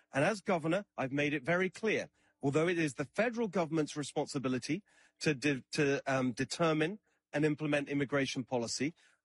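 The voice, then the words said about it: British accent. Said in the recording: “Kind of disconcerting, is it not, to hear a British accent? He's an immigrant from Britain”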